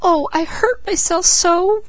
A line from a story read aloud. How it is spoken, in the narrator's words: Peaches wailed